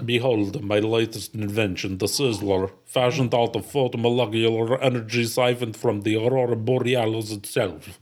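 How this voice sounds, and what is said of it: Put-on Russian accent. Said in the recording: “You do your Soviet accent there. Do your Russian accent”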